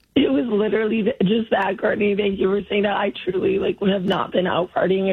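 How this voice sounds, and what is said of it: Hoarse, nearly lost voice. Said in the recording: “Sorry I lost my voice ... your voice sounds that way”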